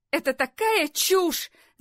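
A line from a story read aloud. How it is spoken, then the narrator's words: Startled, jolted shout. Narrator (Russian): закричала Лори, отреагировав на повторение этого имени, как на удар электрошокера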